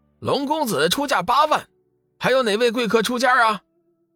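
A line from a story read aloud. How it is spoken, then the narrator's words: Loud, delighted. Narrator (Chinese): 拍卖师满脸喜色，大声道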